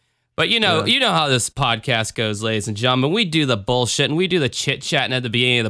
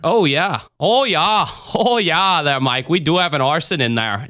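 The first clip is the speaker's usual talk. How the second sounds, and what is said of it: Put-on Minnesota accent. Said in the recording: “my Minnesota accent ... Sounds more like from Fargo.”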